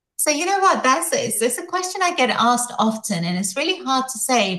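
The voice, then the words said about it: Distinctive non-Boston accent. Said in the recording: “I love your accent, by the way. Incredible. Oh, we don't have that here in Boston.”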